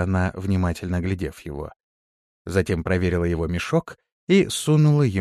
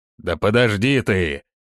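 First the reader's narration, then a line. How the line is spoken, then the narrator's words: Barked, big man. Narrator (Russian): рявкнул здоровяк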